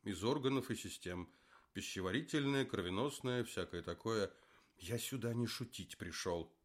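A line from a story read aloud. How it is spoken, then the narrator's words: Exclaimed. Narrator (Russian): воскликнул Лев Абрамович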